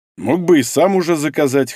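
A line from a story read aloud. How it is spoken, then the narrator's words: Snorting remark. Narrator (Russian): хмыкнул Павел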